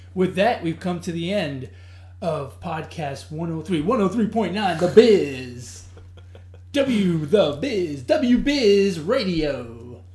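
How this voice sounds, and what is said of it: Radio announcer voice. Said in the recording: “radio voice ... Yeah, it sounds good.”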